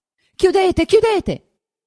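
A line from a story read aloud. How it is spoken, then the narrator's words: Shouting. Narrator (Italian): gridava Lucia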